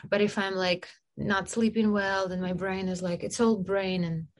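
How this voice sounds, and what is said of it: Russian-accented English, foreign-sounding. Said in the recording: “I have some degrees in Russia ... I sounded like I'm a foreigner. I still sound like I'm a foreigner. ... accent goes in and out.”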